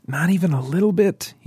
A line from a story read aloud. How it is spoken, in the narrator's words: probed with a hint of pleading